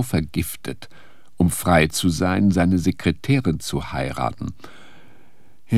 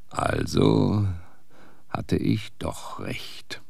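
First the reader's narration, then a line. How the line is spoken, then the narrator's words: Murmuring. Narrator (German): murmelte er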